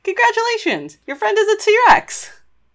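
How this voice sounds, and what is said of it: Bright congratulatory announcing tone. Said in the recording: “In the same tone of voice you'd congratulate, a doctor would congratulate a new mother after delivering her child.”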